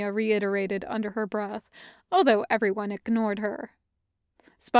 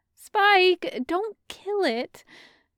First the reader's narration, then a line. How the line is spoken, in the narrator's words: Dawn pleaded